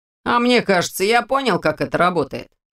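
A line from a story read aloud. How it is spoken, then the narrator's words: Wry snort. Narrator (Russian): хмыкнул Ваня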